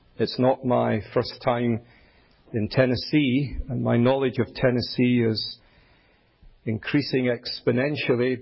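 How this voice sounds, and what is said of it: Scottish accent. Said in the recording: “You'll gather from my accent that I'm not from here... it is Scottish”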